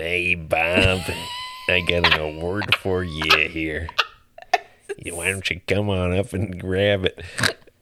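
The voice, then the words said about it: Jack Nicholson impression. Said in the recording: “Jack Nicholson presented him. ... I'll go ahead and do an impression of every person that's an answer on these questions.”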